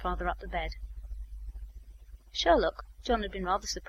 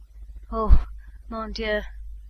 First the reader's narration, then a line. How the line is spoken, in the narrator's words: a gasp and a breathy